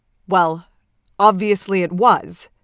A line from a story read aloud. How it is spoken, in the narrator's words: Beard says fiercely